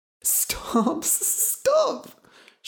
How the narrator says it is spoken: she cried

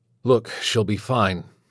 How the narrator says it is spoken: say again, murmuring

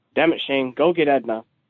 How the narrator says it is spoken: Painful as it looks, Matthias tries his best to will against it, before grunting in reluctant defeat and growling out to his son

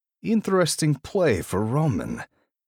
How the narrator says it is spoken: he growls

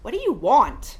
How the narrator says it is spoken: she shouted in my ear

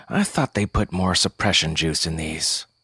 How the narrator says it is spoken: He did grumble

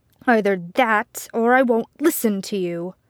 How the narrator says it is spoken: Arthur spat

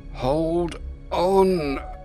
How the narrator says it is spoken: Glendril grunted through gritted teeth

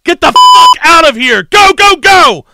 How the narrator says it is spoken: The team leader screamed

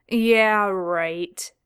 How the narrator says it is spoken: Dean scoffed

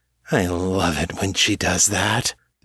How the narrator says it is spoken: Joni purred

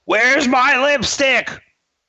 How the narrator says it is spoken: he yells out, he yells out

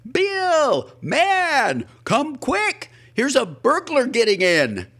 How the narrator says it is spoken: I shouted

